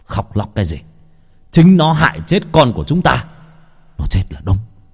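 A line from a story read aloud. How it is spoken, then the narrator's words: Harsh stern voice. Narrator (Vietnamese): Thấy vợ khóc, ông Lâm gằn giọng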